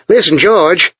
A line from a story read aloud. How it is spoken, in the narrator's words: said Chuck urgently